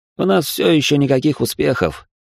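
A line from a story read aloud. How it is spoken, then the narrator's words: Sighing. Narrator (Russian): вздохнул Тёма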